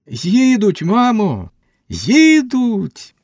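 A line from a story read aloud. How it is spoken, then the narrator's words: Ringing joyful alarm. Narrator (Ukrainian): Раптом заалярмувала Наталка дзвінко й радісно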